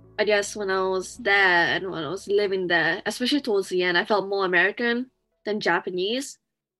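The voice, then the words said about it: Slight British accent. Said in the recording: “that's why you're hearing a hint of British accent.”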